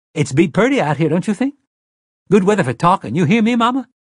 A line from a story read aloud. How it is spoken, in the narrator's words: Detta said brightly